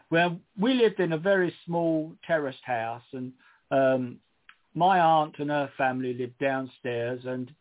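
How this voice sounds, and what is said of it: Cockney London accent. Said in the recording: “I'm a Cockney, as some of you may notice in my accent, which is never gone”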